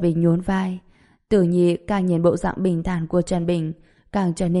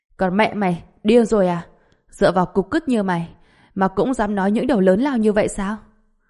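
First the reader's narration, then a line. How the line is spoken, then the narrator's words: Mocking laughter. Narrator (Vietnamese): Tử Nhi cười lớn, vẻ mặt tràn đầy giễu cợt, nói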